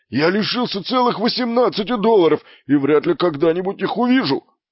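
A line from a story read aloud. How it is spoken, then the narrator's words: Barked. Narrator (Russian): рявкнул он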